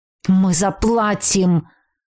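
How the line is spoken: Growled. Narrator (Russian): прорычал

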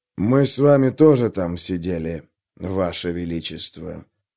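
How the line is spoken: Smooth, insinuating. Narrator (Russian): вкрадчиво произнес Пайк

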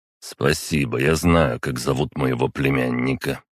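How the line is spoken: Grumbling under breath. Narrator (Russian): пробурчал себе под нос Александр Сергеевич

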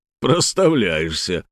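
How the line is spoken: Chuckling. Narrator (Russian): хохотнул тот, кто советовал брать больше

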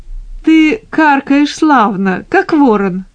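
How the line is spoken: Young man laughing. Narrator (Russian): расхохотался юноша

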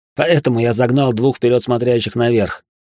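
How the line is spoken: Smirking snort. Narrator (Russian): хмыкнул я

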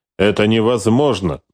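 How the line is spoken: Gloomy grumble. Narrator (Russian): проворчал Салаши окончательно мрачнее

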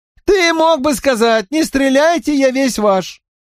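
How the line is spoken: Squeaky call from gallery. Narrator (Russian): пропищал с галерки Уэйн Саффорд

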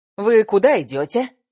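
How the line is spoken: Cheerful, glad question. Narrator (Russian): спросил этот белый воротничок бодро и радостно

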